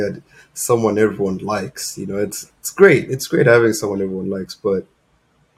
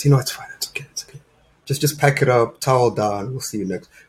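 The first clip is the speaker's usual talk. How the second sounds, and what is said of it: Soft, gentle voice. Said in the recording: “In a soft voice.”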